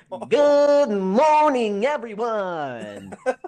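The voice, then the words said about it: Cartoonish imitated voice. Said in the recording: “it sounds like Bugs Bunny. It sounds like a cartoon character ... my best impression”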